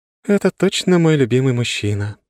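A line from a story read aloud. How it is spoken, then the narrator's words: Sigh. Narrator (Russian): вздохнула Лора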